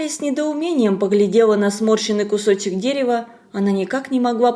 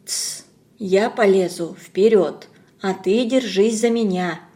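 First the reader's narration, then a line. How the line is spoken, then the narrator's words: Whisper, woman. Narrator (Russian): шепнула тетка Хари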